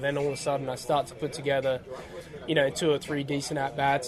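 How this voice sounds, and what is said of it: Australian accent. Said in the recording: “you can tell by his accent that he is not from here. He's from the country of Australia.”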